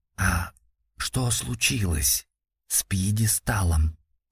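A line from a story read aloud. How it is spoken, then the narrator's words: Whispered question. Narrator (Russian): почему-то шепотом спросил он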